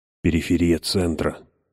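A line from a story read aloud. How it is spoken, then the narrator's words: Whisper. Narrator (Russian): прошептал ВВ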